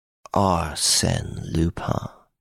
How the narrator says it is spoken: he muttered

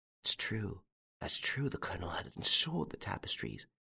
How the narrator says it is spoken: He muttered

